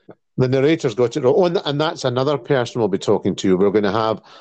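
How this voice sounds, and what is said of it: Usual voice. Nothing is said of it.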